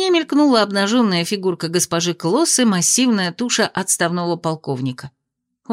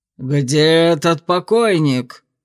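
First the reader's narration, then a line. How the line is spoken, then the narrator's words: Roaring male voice. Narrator (Russian): снова взревел господин Клосс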